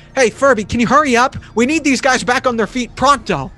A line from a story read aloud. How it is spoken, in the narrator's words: Speed yells to Beast